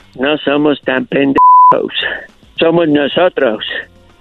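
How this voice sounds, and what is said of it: Imitated American accent in Spanish. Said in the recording (Spanish): “qué buena imitación de un americano”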